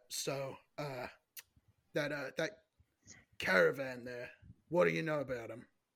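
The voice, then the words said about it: Acted in-character voice. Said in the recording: “I'll do my voice acting ... the first in character voice”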